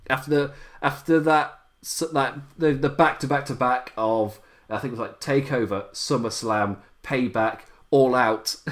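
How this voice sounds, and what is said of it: English accent. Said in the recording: “It can't tell by the accent, I am being English”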